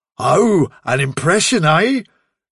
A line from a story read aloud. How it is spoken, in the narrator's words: sneered Bigwig